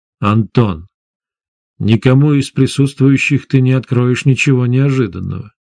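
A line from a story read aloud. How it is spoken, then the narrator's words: Calm. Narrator (Russian): спокойно сказал шеф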